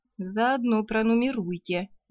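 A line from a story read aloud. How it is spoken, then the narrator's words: Gloomy advice. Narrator (Russian): мрачно посоветовала я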